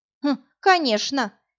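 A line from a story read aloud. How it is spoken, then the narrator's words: Snorting. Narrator (Russian): хмыкнула та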